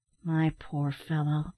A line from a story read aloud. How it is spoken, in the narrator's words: said Ned in a soothing tone